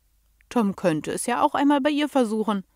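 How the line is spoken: Child laughing. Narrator (German): lachte das Kind

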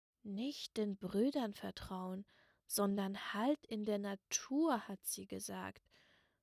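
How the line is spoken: Murmur. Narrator (German): murmelte er

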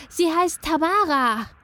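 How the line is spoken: Joyful, breathless boy calling. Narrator (German): rief ein etwa 12-jähriger Junge, freudig und etwas außer Atem

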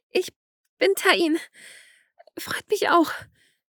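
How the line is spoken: Flustered stutter. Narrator (German): stotterte ein wenig überfordert

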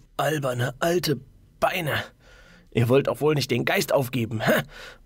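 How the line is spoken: Muttering. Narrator (German): murmelte

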